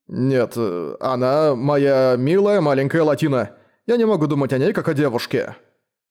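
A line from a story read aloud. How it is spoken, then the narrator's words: Mumbling, helpless. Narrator (Russian): промямлил Дейл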